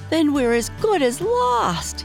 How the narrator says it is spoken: shrieked

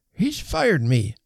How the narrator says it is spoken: croaked

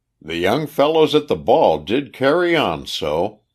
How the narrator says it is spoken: he said, chuckling with reminiscence of that orgiastic occasion

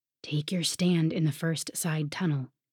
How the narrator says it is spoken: he whispered

